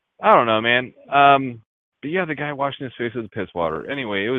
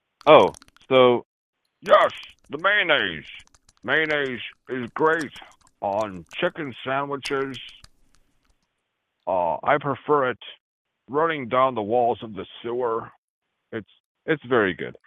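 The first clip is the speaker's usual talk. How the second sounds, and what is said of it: Imitates a Sean Connery-style voice. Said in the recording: “let me do my Sean Connery voice, the Chicago way. Would it be more agreeable if I do a Sean Connery voice?”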